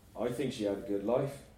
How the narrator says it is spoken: I said quietly

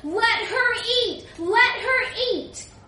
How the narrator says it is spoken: People are shouting

